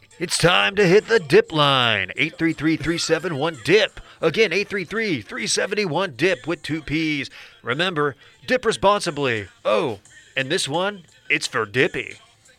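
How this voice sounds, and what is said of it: Professional radio announcer voice. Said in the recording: “radio voice is really something there ... You hired a professional radio”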